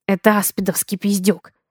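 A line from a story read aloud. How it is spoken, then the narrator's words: Muffled mutter nearby. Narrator (Russian): Раздается приглушенное бормотание рядом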